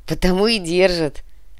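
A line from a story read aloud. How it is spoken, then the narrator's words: Laughing. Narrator (Russian): рассмеялся Михаил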